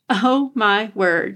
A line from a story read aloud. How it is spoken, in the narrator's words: she laughed